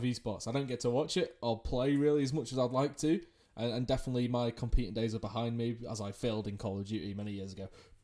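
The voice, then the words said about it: English UK accent. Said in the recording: “if you can't tell by the accent, I'm from the UK, I'm English”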